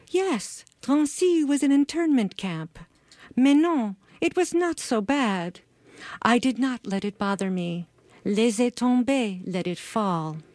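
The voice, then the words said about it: French-accented elderly woman's voice. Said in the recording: “complete with Katie's grandma's French accent.”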